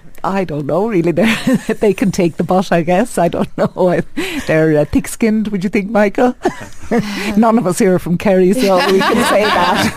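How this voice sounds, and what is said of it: Irish accent, lyrical rhythm. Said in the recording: “you can just hear it there in ... voice. In fact, in all of your voices, just talking normally, that rhythm, the lyricism to the way you speak ... that accent varies from place to place in Ireland”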